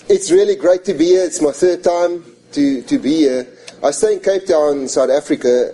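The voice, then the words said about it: Foreign accented English. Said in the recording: “if I sound a little bit different than you, it is because I'm not from this continent... I do have a bit of an accent”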